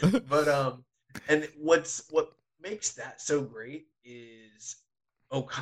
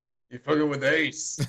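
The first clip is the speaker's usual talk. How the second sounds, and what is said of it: Imitates a movie character's voice. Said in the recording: “you got to do the joint from that movie ... Do that voice.”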